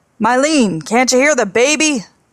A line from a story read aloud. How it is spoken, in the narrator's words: He put his face to the window screen and shouted